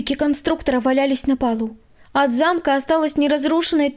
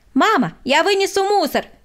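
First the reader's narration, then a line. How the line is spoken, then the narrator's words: Shouted. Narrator (Russian): крикнул Владик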